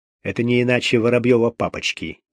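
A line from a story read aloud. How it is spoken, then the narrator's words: Quiet and quick. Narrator (Russian): тихо и быстро сказал Гуров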